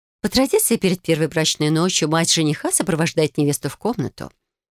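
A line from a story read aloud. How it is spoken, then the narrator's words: Calm explanation. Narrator (Russian): спокойно пояснила Никандра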